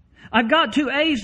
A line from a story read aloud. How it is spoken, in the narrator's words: the small boy cried